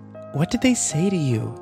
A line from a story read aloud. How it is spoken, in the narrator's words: Kimber asked nervously